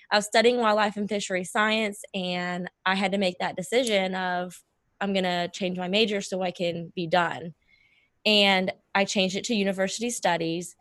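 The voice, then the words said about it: Hoarse, fading voice. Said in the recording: “I'm losing my voice right now.”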